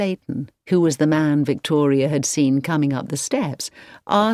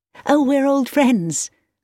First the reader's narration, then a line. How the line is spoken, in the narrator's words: laughed Victoria